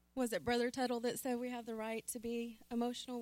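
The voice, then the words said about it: Emotional, shaky voice. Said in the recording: “Sorry if I'm a little emotional.”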